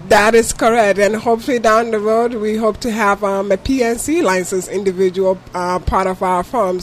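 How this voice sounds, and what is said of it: Speaks with a noticeable accent. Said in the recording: “you can hear ... accent”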